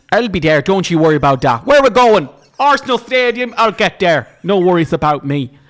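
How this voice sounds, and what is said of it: Put-on shifting Irish accent. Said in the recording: “I've changed the accent about 5 times ... I'm travelling the island of Ireland”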